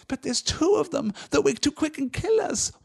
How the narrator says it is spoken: whined Smeagol in a last effort

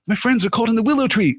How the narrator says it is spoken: cried Frodo breathlessly

